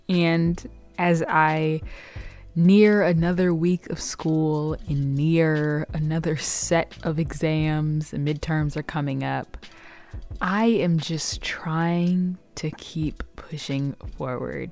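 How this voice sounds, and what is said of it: Tired, exhausted-sounding voice. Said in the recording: “I don't know if you hear it in my voice, but I am exhausted... I don't even understand how I'm this tired”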